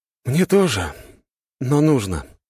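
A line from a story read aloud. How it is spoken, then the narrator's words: Sighing. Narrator (Russian): вздохнул парень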